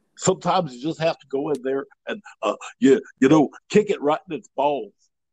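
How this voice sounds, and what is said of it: Imitates another person's voice. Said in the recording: “that was an impersonation of this guy Lee.”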